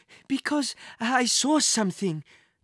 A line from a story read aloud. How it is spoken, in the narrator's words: the man gasped for breath